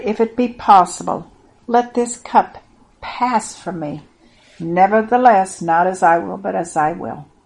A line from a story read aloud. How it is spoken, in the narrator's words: cried